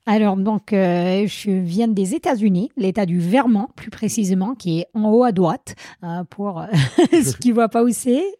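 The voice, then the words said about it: American accent speaking French. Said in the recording (French): “je n'arrive pas à m'en débarrasser de mon accent. J'espère que les auditeurs vont le trouver charmant.”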